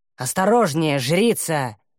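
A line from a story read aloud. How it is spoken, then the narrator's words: Hoarse rasp. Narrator (Russian): прохрипел Таумиэль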